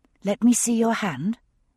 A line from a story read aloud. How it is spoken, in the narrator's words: I whispered